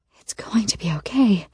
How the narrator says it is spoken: I whisper, glamour thick in my voice

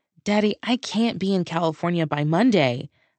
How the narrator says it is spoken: blurted out

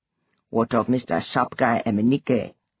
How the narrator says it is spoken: Nosa asked, his tone alive with malice

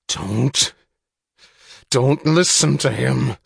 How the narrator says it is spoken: snarled the chief

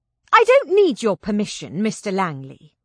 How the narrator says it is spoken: I snapped

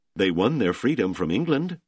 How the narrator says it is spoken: Trinidad said

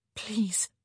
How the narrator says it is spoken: she whispered

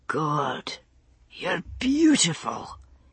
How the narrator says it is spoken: he murmured into the curve of her neck

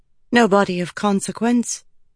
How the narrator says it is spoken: Malise said

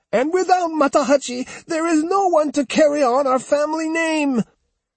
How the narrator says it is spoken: Shaking violently, she screeched

